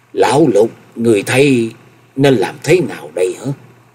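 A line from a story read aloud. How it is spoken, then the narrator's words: Loud, trembling. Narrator (Vietnamese): Chân Tư Nhân đến giờ mới lấy lại được hồn vía, rồi lớn giọng run run nói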